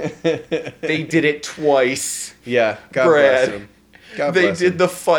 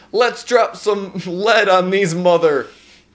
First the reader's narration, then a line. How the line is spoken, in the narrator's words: the elderly veteran yelling